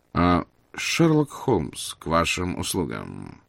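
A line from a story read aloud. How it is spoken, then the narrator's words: Calm, unruffled. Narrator (Russian): спокойно проговорил мой друг, словно никто его и не прерывал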